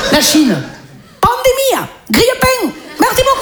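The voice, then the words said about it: Comedian doing a put-on accent. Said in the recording (French): “Un accent. Je viens de faire un accent.”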